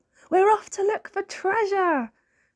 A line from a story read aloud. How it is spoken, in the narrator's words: cried Snork Maiden